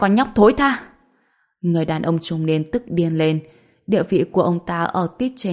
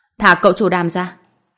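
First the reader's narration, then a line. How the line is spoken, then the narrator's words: Shouting. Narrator (Vietnamese): Tôi hét lên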